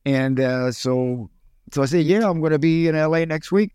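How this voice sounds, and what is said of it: Cuban accent. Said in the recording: “my accent and Cuban accent.”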